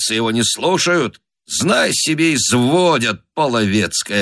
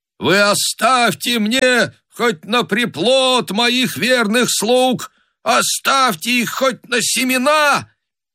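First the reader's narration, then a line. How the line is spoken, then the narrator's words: Frightened booming roar. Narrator (Russian): Собака хан испугался, зарычал, закричал зычным голосом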